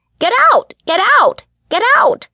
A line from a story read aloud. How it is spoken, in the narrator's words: Poe shrieked